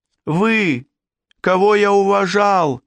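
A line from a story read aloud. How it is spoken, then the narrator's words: Shout. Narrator (Russian): закричал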